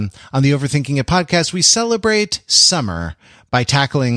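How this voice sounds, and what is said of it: Usual voice. Nothing is said of it.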